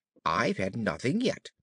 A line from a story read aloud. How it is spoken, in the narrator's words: Alice replied in an offended tone